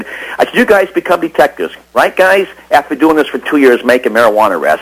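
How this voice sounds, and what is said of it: Usual voice. Nothing is said of it.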